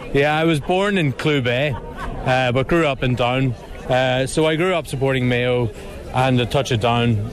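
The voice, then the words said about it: Northern Irish County Down accent. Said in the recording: “you've got a Down accent”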